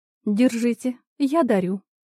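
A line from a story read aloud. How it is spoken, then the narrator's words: Calm, soft gentle voice. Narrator (Russian): спокойно ответил мягкий нежный голос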